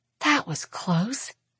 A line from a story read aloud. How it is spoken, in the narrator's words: Arsinoe whispers